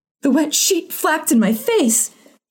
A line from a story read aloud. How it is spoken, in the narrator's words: she cried